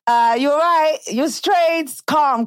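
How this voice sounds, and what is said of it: Put-on English London accent. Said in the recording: “That thing gave me like an English accent”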